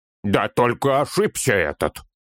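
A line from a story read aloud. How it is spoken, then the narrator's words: Sudden gruff bark. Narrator (Russian): Вдруг рявкнул гном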